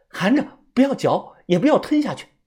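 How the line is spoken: Hurried urging. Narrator (Chinese): 蛇女 她急忙叮嘱我

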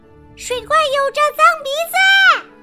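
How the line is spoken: Shouting. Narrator (Chinese): 阿丽莎大喊

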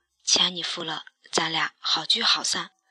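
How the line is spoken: Low voice. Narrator (Chinese): 可乐先生埋头低声说

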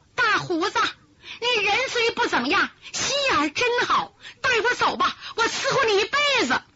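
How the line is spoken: Excited shout. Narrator (Chinese): 他激动的高喊

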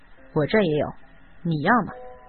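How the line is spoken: Low voice. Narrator (Chinese): 宋乐天肯定也压低声音说

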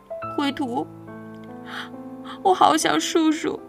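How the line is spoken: Crying, choked voice. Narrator (Chinese): 红桃姑娘就一边哭鼻子，一边哽咽着说

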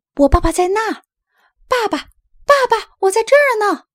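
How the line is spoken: Shouting. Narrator (Chinese): 拉尔斯也喊了起来

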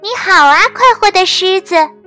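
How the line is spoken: Small voice calling. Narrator (Chinese): 一个很小的声音叫道

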